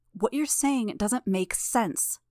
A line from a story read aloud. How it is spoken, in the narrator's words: Shadowstalker snarled